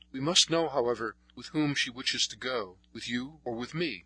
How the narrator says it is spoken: after a moment's hesitation, he said uneasily

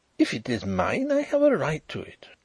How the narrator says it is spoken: he exclaimed

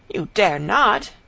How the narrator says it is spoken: cried the prince

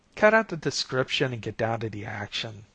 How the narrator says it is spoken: snapped Sophie

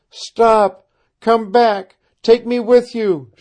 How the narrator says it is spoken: she cried

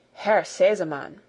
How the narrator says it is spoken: began the lady in a solemn voice

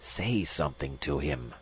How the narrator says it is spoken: Magnan hissed

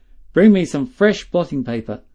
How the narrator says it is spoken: he said sternly

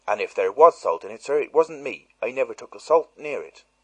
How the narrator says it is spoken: she blurted out, unexpectedly

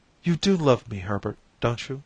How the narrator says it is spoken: she said, her voice suddenly breaking

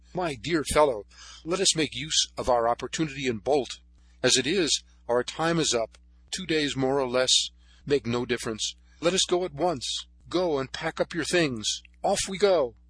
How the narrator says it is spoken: he exclaimed

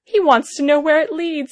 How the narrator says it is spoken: he shouted to some men on the hillside

